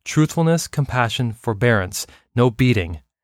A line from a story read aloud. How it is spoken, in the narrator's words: the naughty student yelled